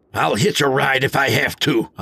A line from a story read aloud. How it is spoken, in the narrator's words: I barked